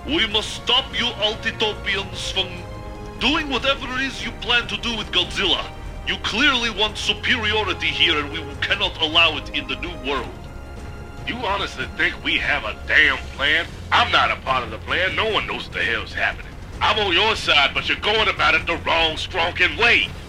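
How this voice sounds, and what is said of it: Thick, heavy unfamiliar foreign accent. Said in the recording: “this thick, heavy accent that you're not familiar with. Altitopians don't seem to have this accent”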